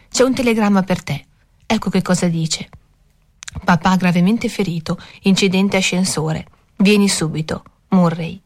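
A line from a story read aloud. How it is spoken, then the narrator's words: Gentle. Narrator (Italian): disse dolcemente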